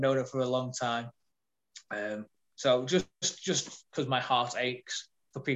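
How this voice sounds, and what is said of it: Usual voice. Nothing is said of it.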